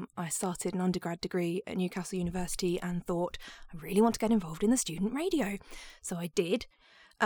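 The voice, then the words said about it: Neutral standard Southeast English accent. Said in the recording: “your accent just sounds very standard Southeast. It's not tied to anywhere in particular”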